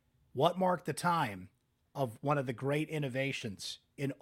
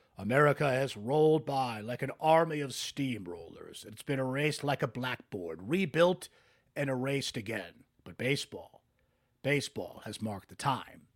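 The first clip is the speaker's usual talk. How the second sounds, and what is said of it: Bad James Earl Jones impression. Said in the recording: “I should do my bad James Earl Jones impression here.”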